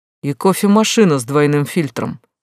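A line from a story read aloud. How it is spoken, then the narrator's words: Man's short laugh. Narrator (Russian): хохотнул мужчина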